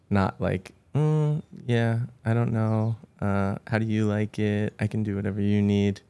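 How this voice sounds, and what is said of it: Unsure, insecure-sounding voice. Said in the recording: “giving it that voice... So insecure”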